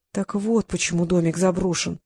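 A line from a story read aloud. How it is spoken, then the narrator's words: Muttering. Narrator (Russian): пробормотала она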